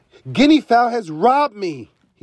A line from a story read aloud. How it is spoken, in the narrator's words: shouted